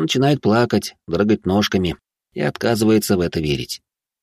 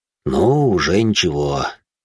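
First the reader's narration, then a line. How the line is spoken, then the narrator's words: Father's sigh. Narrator (Russian): вздохнул отец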